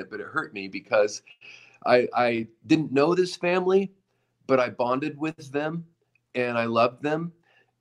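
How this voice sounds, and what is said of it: Emotional voice. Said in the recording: “getting emotional”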